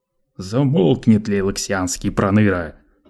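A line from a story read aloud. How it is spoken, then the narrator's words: Roaring. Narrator (Russian): взревел Лето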